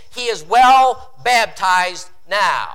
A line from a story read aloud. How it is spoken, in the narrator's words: the spectators shouted